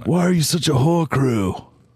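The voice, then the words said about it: Rough English accent. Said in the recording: “Which particular accent are you doing there? Which English? I know it's a rough English accent.”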